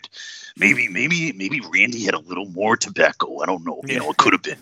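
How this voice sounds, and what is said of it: Sick, gritty voice. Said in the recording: “that was actually ... talking normally. That's how sick he is right now ... He's got a little more grit”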